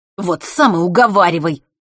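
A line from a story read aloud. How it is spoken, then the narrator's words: Snapping retort. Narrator (Russian): огрызнулся Норт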